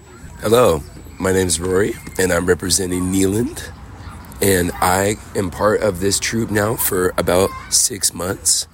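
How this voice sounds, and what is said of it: Hoarse, nearly lost voice. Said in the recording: “lost my voice.”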